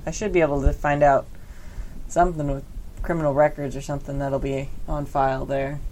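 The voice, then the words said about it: Drifting Southern accent. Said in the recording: “I don't know why I'm southern all of a sudden”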